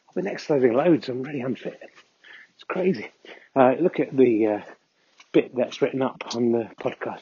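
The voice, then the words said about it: Out of breath while talking. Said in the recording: “I'm already out of breath.”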